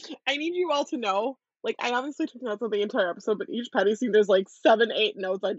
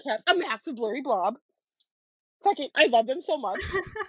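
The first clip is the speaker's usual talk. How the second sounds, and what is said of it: Yelling. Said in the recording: “This is all in caps, is why I'm yelling”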